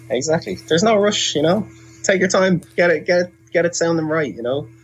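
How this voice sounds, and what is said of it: Irish accent. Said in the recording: “with your Irish accent. ... It just makes me feel very comfortable”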